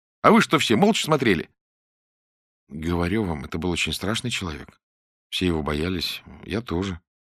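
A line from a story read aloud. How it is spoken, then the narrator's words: Calm admission. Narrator (Russian): спокойно признался Клобуков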